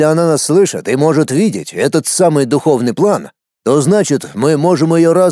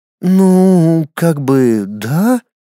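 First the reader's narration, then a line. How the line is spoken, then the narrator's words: Confused, drawn out. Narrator (Russian): растерянно протянула фея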